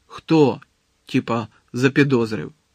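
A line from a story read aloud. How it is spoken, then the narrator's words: Angry question. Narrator (Ukrainian): сердито запитав Малфой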